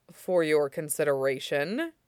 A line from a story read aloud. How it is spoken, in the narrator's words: he says blandly